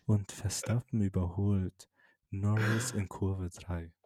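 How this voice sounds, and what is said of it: Whispering like ASMR commentary. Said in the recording (German): “Einfach flüstern.”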